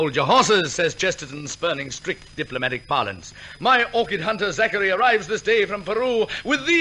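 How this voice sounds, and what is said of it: Usual voice. Nothing is said of it.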